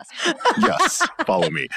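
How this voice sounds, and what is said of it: Radio announcer voice. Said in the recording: “You just switched into radio announcer voice.”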